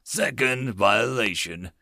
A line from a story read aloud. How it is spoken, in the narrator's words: all the bigger ones intoned